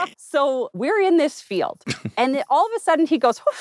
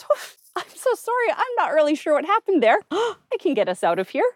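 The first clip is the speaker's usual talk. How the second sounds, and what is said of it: Exaggerated Canadian-sounding voice. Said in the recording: “That sounds very Canadian. ... It is the most Canadian thing possible.”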